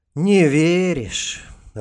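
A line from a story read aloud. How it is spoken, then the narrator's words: Sigh. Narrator (Russian): Рост вздохнул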